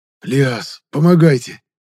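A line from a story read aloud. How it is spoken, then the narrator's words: Strained hoarse wheeze. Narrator (Russian): Прохрипел из последних сил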